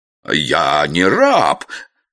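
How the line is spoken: Indignant roar. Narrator (Russian): возмущенно взревел парламентер

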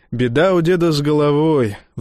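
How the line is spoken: Sighing. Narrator (Russian): вздохнул Тончини

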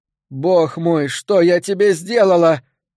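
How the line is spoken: Sobbing. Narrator (Russian): разрыдался я

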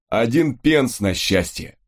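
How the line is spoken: Short laugh. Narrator (Russian): хохотнул Фрэнсис

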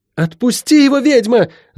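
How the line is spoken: Shouted. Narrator (Russian): закричала Лайон

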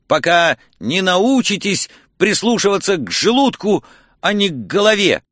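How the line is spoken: Stammering, embarrassed. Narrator (Russian): начал я, запинаясь и заливаясь краской

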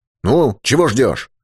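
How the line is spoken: Irritated shout. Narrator (Russian): раздраженно прикрикнул Юрковский

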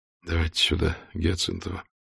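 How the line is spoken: Quiet. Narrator (Russian): Исаев тихо говорит

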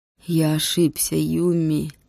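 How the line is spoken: Muffled old man. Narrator (Russian): глухо сказал старик

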